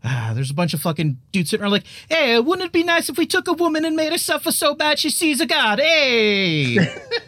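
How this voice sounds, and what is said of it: Put-on Italian accent. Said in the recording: “Why are they Italian? ... Was that an Italian accent? ... It kind of seemed a little Italian.”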